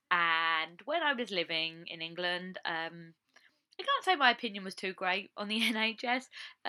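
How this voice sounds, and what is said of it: English accent. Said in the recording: “I come from England, as I've said, and you can probably tell by my voice”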